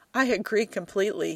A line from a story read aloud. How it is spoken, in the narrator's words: says, between bouts of laughter